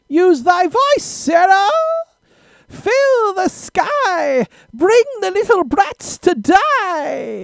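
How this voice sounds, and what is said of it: Silly impression voice. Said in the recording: “do a silly impression”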